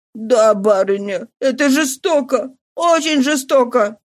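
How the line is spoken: Sobbing maid. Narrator (Russian): проговорила горничная, принимаясь рыдать еще сильнее

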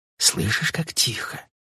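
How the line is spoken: Barely audible question. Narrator (Russian): спросила она чуть слышно

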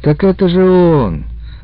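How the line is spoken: Gloomy confirmation. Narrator (Russian): также уныло подтвердил Миля

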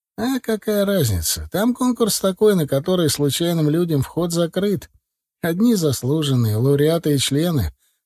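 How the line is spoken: Chuckling over the phone. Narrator (Russian): хохотнул на этом слове в трубку Владлен

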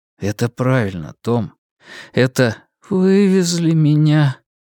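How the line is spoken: Quiet, sad repetition. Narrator (Russian): повторил Том тихим, печальным голосом

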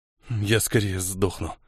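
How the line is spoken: Through clenched teeth. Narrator (Russian): процедил Элир

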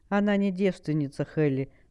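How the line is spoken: Calm, demon. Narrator (Russian): спокойно ответил бес

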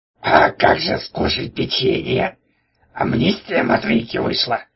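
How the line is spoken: Nasty, mocking voice. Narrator (Russian): спросил он пакостным голосом

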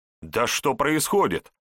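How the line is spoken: Loud indignation. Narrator (Russian): громко возмущался Егор

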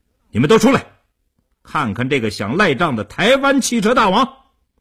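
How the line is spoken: Vicious raised shout. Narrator (Chinese): 叶成坚恶狠狠地提高声音对里屋喊道

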